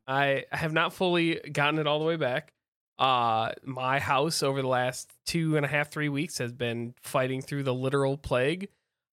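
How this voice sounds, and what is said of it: Sick, rough-sounding voice. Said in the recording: “As you can tell, my voice has not... You sound like trash... When you're sick.”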